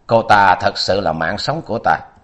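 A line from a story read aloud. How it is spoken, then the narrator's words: Old man, brief pause. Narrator (Vietnamese): Lão khẽ ngưng rồi nói tiếp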